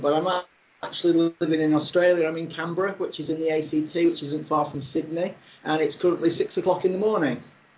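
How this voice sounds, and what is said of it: British accent. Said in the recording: “Oh, I'm originally from the UK. I think everybody will be able to tell that from my accent”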